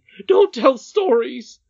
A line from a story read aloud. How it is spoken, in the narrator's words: cried her nurse quite rudely